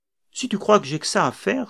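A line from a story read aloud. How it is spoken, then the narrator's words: Exclaimed. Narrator (French): s'exclama-t-elle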